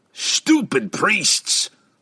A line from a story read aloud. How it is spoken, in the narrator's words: Brunner growled